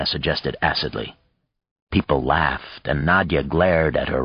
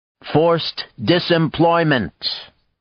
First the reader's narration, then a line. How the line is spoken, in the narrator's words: Art said loudly from the back